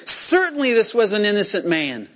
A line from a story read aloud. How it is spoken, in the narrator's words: He starts praising God and exclaiming